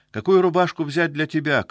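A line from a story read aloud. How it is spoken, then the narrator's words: Distant shout. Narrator (Russian): крикнула из спальни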